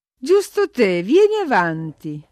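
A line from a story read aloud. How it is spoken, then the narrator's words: Cheerful exclamation. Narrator (Italian): esclamò allegramente la padrona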